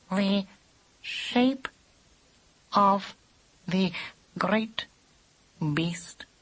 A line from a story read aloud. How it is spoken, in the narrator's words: said Squintum slowly